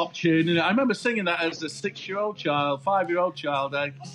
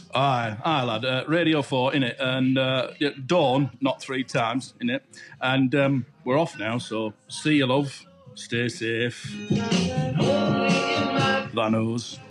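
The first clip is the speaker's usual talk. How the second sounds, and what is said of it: Put-on northern English accent. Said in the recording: “your northern accent ... Your Radio 4 northern accent”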